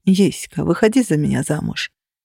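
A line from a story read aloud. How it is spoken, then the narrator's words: Soft whisper. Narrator (Russian): тихо прошепчут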